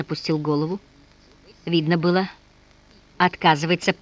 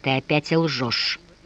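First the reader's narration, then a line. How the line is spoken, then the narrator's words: Through gritted teeth. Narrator (Russian): процедил он сквозь зубы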